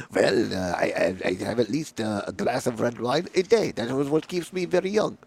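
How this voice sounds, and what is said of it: Poor put-on French accent. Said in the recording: “I'm a terrible French accent.”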